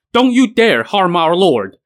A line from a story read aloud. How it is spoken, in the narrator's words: two of his generals and sworn brothers, Huang Ming and Zhou Ji, darted out, shouting